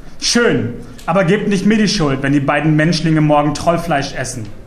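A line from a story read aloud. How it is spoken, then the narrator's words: Exasperated call. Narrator (German): entnervt ... rief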